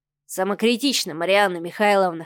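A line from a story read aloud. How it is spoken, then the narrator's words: Said with a snort. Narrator (Russian): хмыкнул Адмиралов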